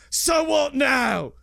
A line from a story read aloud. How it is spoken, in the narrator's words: Shaw screams out